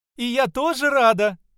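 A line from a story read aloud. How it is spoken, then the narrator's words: Shouted out. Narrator (Russian): выкрикнула невеста Марша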